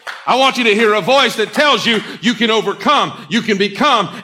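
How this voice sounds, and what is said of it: Loud, forceful preaching voice. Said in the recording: “why do you have to say it so loudly? I say it loudly”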